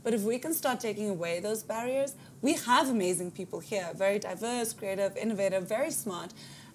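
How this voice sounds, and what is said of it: South African Afrikaans accent. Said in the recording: “people to be wondering where your accent comes from ... Ek is 'n Afrikaanse meisie van Pretoria”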